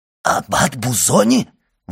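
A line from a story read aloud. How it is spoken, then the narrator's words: Exclaiming. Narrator (Russian): воскликнул Кадрус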